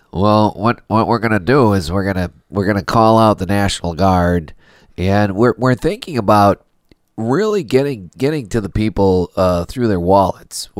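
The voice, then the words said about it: Nasal politician impression, accent slightly off. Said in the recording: “You don't have the right accent for it. ... you got the nasal thing down, but you got to add Wisconsin in there”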